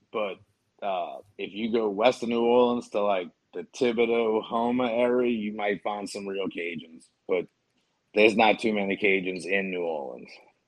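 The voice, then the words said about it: New Orleans accent. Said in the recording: “I have a New Orleans accent.”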